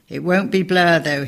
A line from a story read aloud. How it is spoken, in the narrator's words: he laughed